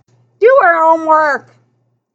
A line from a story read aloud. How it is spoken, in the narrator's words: McNabb the father bellowing back